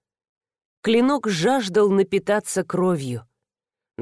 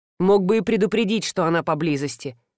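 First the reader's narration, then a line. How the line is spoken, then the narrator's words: Grumbling. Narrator (Russian): проворчал Кирши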